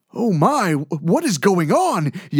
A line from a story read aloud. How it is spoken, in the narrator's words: yelled a terrified Mr